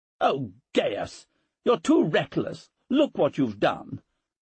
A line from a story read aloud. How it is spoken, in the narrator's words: snapped Portia, apparently more distressed by the stain on her husband than by her son's bleeding